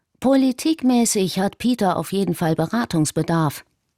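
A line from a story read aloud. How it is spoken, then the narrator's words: Plain. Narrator (German): antwortete Yiannopoulos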